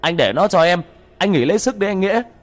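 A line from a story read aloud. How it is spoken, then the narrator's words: Bellowing yell. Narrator (Vietnamese): Tên Khang cũng gào lên một tiếng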